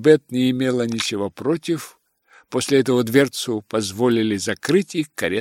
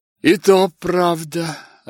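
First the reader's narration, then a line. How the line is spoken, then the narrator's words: Answered with a sigh. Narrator (Russian): ответила ее спутница и вздохнула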